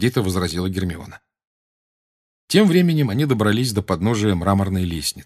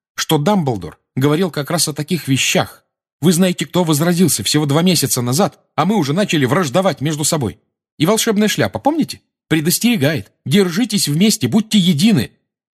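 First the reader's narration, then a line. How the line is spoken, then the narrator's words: Loud, emphatic. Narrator (Russian): громко с нажимом продолжала Гермиона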